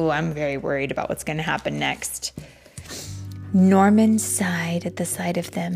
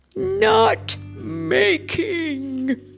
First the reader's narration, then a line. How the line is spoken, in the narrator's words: they roared